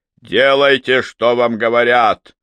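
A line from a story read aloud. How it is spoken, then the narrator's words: Roar. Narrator (Russian): сэр Уильям проревел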